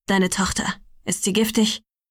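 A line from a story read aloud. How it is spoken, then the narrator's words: Brusque question. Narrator (German): fragte schroff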